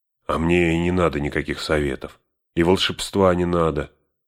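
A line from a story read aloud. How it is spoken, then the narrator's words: Grumbling mutter. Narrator (Russian): пробурчал Сэм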